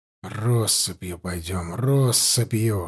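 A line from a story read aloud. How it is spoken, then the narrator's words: Whisper. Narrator (Russian): шептал Алексей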